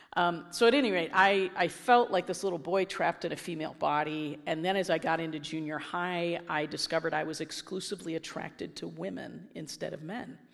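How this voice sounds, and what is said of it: Raspy voice from a cold. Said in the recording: “I'm getting over the same cold ... I'm really raspy this morning”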